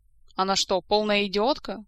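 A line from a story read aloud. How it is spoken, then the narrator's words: Rude reply, king. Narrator (Russian): грубо ответил король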